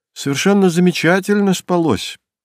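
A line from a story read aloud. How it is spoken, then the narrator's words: Forced cheerfulness. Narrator (Russian): постаралась бодро ответить она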